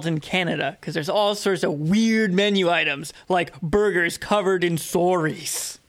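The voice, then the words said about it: Bad put-on Canadian accent. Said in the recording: “You just said it in such a weird way... I'm just saying it with a shitty Canadian accent... That was terrible, though.”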